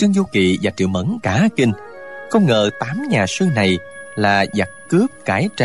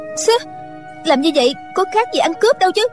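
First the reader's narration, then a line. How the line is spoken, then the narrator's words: Angry. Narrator (Vietnamese): Triệu Mẫn giận dữ nói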